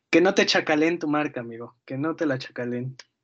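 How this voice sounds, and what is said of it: Working-class barrio Mexico City accent. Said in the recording (Spanish): “tu acento este, de barrio ... Me acento tlahualquense”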